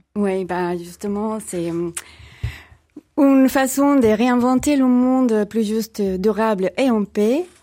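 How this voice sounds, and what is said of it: Slight Mexican Spanish accent. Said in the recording (French): “le petit accent qu'on va entendre tout à l'heure nous vient du Mexique”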